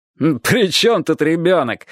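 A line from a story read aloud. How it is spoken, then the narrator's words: Man laughing loudly. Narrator (Russian): хохотал большой красивый охотник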